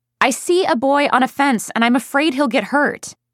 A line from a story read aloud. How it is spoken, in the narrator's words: I yelled as loud as I could